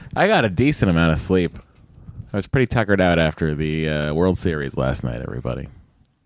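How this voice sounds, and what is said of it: Slightly raspy voice. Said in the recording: “my voice is a little raspy. A little raspy.”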